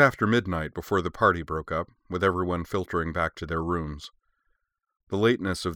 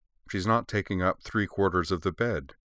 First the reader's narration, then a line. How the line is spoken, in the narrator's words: Truda said dryly